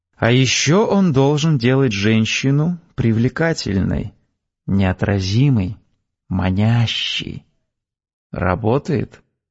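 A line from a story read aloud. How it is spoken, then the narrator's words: Soft speech. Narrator (Russian): Мягко сказала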